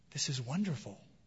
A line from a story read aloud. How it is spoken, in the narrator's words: whispered the boat